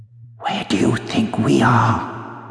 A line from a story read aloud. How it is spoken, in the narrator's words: Susan whispered